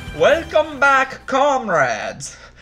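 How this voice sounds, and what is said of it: Bad mixed Eastern European accent. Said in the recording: “I cannot do a good Russian impression ... That accent. What? That wasn't Russian. That wasn't Latvian. That was some sort of massacre of Eastern Bloc countries. ... With a little bit of Jamaican.”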